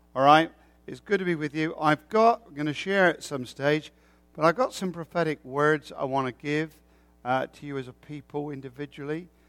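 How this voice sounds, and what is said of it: Rural English countryside accent. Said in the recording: “it's not Canadian, it's not American, it is English. ... It's not your posh English accent. It's the countryside of England. All right, the backwaters”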